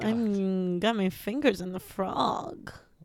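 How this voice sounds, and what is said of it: Put-on sexy voice. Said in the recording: “is that a sexy voice?”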